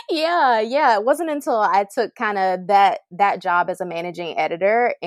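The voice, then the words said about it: Slight Southern US accent. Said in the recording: “I knew you had a little accent.”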